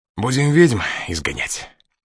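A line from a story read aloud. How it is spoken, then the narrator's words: Mocking snort. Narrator (Russian): хмыкнул он со всей насмешливостью, на какой был способен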